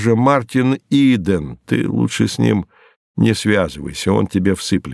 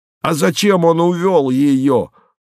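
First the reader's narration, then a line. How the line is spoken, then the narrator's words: Shouting. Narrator (Russian): кричал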